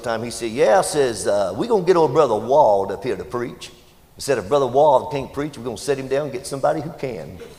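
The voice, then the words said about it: Heavy Mississippi accent imitation. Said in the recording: “had a real heavy Mississippi accent.”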